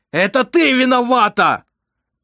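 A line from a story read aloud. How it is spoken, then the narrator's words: Shout. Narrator (Russian): крикнул он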